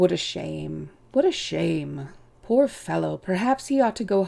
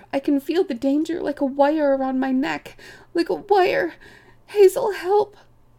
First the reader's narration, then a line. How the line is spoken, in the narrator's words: He squealed